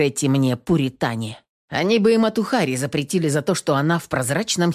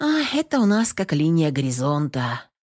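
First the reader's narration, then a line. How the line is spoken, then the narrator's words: Sigh. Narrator (Russian): вздохнула Наташа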